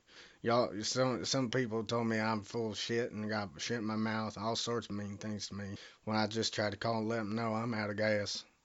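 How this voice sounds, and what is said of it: Put-on Southern US accent. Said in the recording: “I'm from out of town, if y'all can't understand... I got a bit of an accent”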